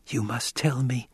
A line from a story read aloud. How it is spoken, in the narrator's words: she whispered